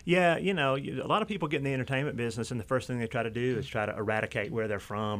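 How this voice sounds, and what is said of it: North Georgia Southern accent. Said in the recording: “you have a lovely Georgia accent ... It is a North Georgia accent”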